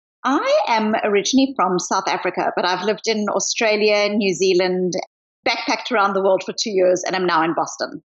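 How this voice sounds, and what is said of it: Mixed South African accent. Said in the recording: “I hear a bit of an accent from you ... So it's not a simple accent.”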